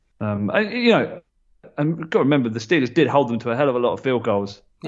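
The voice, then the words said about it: Accent that drops final R sounds. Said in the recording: “Is that because of my accent? ... It's just the way you say it. Like, what? It's like there's no R on the end.”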